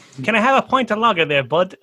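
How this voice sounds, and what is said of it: Put-on Irish accent. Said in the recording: “That was Irish. ... It's more Irish. ... That was plain Irish.”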